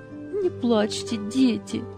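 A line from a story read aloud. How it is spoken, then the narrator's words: Soothing, holding back sobs. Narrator (Russian): Еле сдерживая рыдания, успокаивала их Анита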